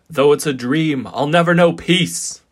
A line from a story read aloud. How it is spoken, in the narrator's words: he cried to the skies